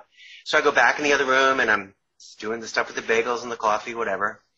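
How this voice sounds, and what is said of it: New York accent. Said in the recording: “Oh, coffee. There's my New York accent there.”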